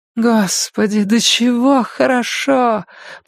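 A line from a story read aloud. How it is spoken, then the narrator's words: Moan. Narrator (Russian): простонала она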